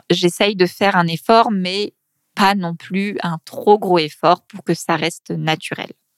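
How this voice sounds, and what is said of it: Regional French accent, dropped t sounds. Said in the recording (French): “on a tendance un peu à manger le t ... c'est juste euh, mon accent”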